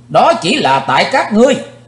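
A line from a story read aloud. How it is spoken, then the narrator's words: Sudden shout. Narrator (Vietnamese): Thình lình Chí Tôn hét lên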